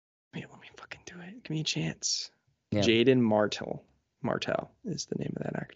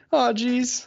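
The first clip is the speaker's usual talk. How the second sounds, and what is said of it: Imitates cartoon character Morty's voice. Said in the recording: “a good Rick or Morty impersonation ... I'll be Morty.”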